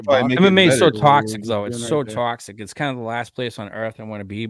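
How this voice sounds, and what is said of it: Thick Australian accent. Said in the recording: “the Australian guy ... you have a thick accent”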